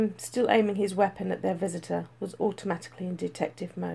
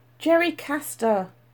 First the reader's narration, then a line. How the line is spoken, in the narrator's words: Jane yelled